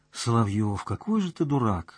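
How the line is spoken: Sighing. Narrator (Russian): вздохнула Настя

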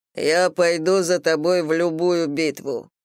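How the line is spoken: Booming drone. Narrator (Russian): прогудел тот

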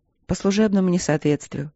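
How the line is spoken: Calm. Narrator (Russian): спокойно сказала капитан

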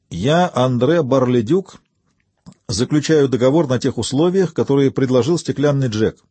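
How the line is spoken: Loud, for a droid to hear. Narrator (Russian): произнес громко, так чтобы слышал дроид

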